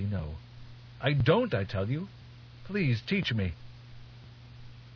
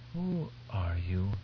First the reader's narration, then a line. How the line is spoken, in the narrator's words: Duncan whispered